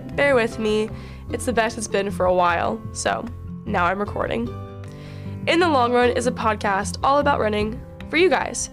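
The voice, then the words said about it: Voice slightly changed, not quite normal. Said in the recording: “I'm, li- am coming back from a little cold ... my voice is a little different”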